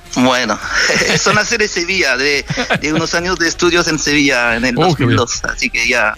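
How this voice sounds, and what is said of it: French speaker with Andalusian Spanish accent. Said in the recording (Spanish): “tienes un francés, un español, francés, acento andaluz, es una buena mezcla”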